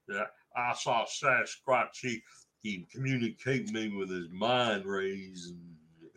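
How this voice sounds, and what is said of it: Pretty good put-on American accent. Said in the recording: “That's a pretty good American accent”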